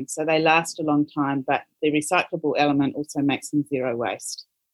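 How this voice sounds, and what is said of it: New Zealand accent. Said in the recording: “your beautiful accents, ladies? ... New Zealand.”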